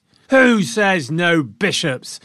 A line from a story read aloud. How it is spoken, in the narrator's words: the crowd roared back